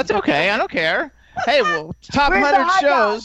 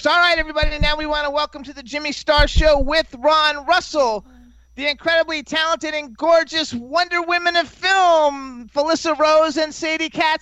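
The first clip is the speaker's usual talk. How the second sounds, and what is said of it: Showy carnival announcer voice. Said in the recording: “you sound like an announcer at Coney Island ... he's like he's introducing coochie coochie girls”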